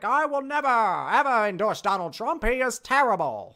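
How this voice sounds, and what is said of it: Old-time radio announcer voice. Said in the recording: “I don't know why I'm doing the old-time radio voice for that”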